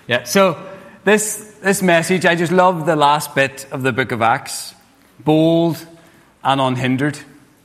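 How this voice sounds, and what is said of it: Speaks with a noticeable accent. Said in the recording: “My accent in the first bit, or do I need to slow down?”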